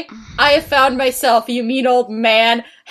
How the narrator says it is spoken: Hagrid yelled

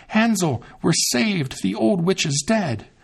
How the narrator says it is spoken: Gretel cried out

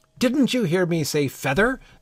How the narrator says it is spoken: the sheep cried angrily

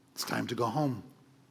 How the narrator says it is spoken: the rabbi gently reminded the son

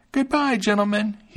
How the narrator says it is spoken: he cried out, laughing at them

